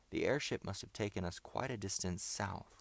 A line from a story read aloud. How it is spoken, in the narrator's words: said Bob